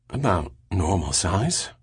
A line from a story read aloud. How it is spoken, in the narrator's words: muttered Pellerat